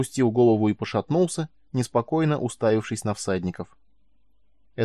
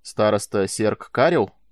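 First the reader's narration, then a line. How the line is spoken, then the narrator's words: Stern. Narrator (Russian): строго заговорил Майлз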